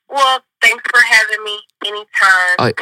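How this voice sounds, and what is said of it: Fake put-on voice. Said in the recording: “in a fake voice”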